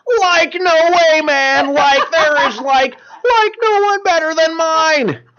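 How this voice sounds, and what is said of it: Imitates Shaggy cartoon character voice. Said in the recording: “your Shaggy impersonation ... did the Shaggy like voice”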